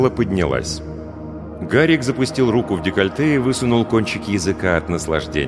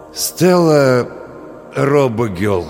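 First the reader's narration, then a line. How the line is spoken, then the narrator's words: Strained, forced out. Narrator (Russian): с усилием выдавил Олег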